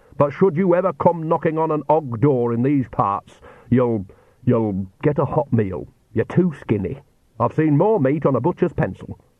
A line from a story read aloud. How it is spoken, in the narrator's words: she said stiffly